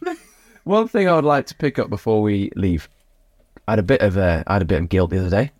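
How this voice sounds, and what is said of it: Usual voice. Nothing is said of it.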